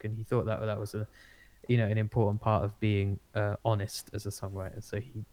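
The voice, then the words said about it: Essex English accent. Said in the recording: “my own Essex accent in general”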